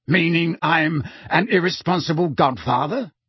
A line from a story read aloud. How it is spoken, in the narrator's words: demanded Sirius, his voice rising